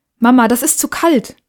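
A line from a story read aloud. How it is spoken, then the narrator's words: Called out. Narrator (German): rief er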